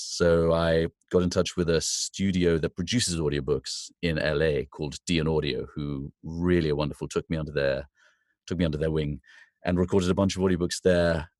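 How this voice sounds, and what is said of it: English accent. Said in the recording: “I have an English accent, which is quite marketable for voiceover stuff”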